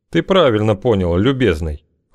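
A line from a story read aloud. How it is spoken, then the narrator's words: Cold reply. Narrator (Russian): холодно ответил Окш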